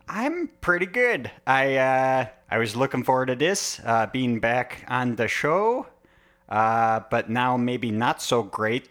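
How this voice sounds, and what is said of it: Local regional accent. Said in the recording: “it's taking you like half a sentence to find your accent ... turning into more of the local ... you kind of take on that accent”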